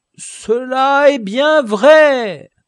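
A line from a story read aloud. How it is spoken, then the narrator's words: Kind old man exclaiming. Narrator (French): s'écria le bon vieillard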